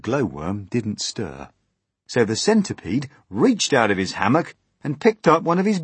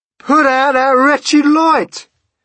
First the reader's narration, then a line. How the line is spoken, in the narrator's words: he shouted